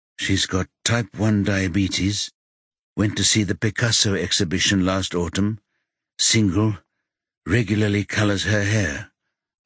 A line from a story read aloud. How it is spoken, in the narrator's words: Margot adds in a monotone